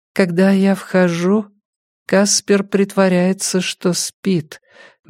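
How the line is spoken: Slow speech. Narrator (Russian): медленно сказала она

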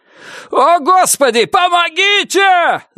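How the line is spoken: Frantic screaming. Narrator (Russian): заорал истошным голосом Джо

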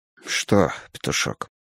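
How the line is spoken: Barely audible question. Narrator (Russian): спросил еле слышно

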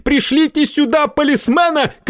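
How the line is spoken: Shouted. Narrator (Russian): крикнул Варбек

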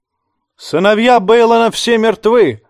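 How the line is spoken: Shouted. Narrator (Russian): крикнул Ральф Хромой

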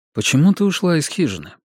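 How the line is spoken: Calm question. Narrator (Russian): Джефф спокойно спросил ее

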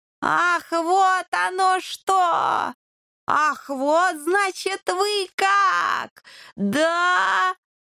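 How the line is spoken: Offended drawl. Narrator (Russian): обиженно протянул владыка

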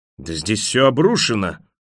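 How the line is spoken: Horrified bark. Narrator (Russian): в ужасе рявкнул он

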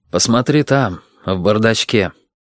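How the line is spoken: Sad. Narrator (Russian): все так же грустно сказал Максим

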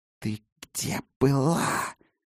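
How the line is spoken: Hiss. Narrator (Russian): прошипела она

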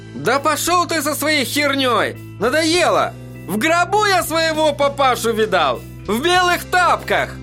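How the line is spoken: Hysterical shout. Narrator (Russian): Истерически выкрикнул Эдди

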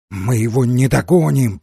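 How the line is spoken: Hoarse wheeze. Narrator (Russian): прохрипел Димбл

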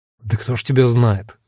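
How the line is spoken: Grumbling mutter. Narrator (Russian): буркнул я

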